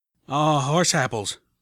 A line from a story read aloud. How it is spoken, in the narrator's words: Calamity said wearily